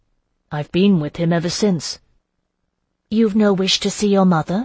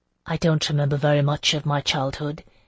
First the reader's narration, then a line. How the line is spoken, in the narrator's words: he said softly